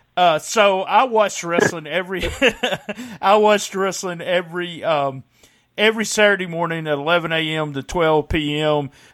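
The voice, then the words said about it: Memphis-area American accent. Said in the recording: “I grew up in the Memphis area. As you can probably tell by my accent, I'm not from New York.”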